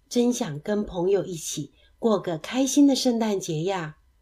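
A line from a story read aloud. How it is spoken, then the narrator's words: Murmuring to oneself. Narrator (Chinese): 大麦喃喃自语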